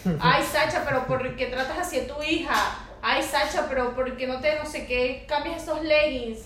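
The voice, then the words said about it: Whiny complaining old woman voice. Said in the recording (Spanish): “Me gusta esa voz ... esa de voz vieja, de vieja quejona. No, esa es Karen. ... me gusta tu voz de vieja Karen.”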